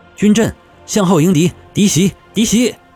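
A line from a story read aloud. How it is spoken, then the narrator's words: Terrified shouting. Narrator (Chinese): 他惊恐地大叫道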